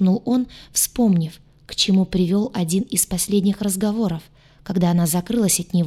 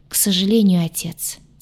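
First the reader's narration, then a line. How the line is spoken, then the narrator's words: Heavy sigh. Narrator (Russian): тяжело вздохнул он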